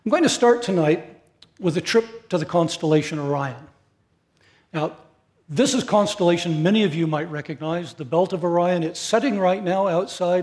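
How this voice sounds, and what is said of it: North American accent. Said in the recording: “they can hear my obvious North American accent”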